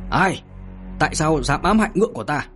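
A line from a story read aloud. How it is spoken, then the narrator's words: Shouting. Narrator (Vietnamese): Trường Sinh hét lên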